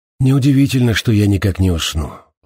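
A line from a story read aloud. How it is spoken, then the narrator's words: Sighing. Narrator (Russian): вздохнул Зиганшин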